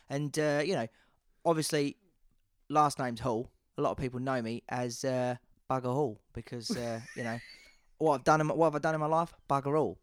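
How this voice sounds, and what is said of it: Put-on London geezer accent. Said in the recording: “One I don't get to do very often is a London accent ... He's a London boy, yeah? ... Sort of like London geezer.”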